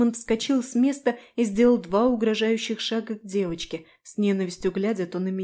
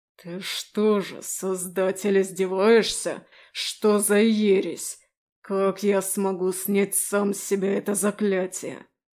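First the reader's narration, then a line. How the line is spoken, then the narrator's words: Growling. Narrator (Russian): Рычал он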